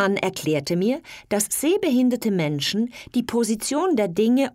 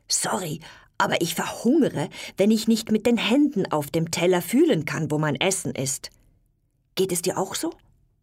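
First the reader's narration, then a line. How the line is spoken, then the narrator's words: Whispered. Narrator (German): Ich flüsterte zu meinem Mann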